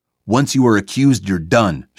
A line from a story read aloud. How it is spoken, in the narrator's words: shouted